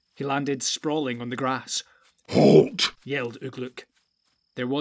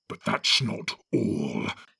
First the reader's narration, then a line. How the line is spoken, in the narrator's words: he snarled